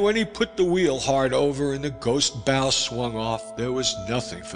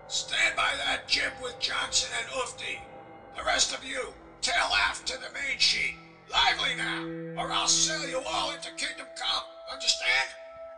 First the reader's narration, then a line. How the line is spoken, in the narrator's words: he cried, and I heard through the tumult as one might hear a whisper